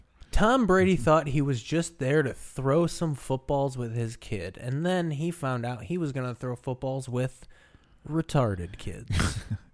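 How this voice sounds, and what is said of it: Imitates another person's voice. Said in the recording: “my Jeremy Shapp impression”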